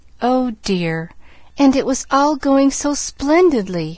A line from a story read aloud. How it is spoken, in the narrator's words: almost sobbed Pollyanna